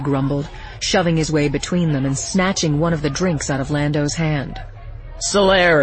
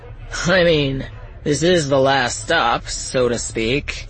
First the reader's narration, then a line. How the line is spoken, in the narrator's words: Sardis slurred on